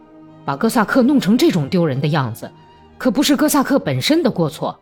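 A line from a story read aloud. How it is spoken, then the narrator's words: Shouting. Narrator (Chinese): 霍利斯托尼亚喊道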